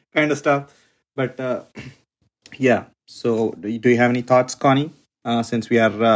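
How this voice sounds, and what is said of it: Usual voice. Nothing is said of it.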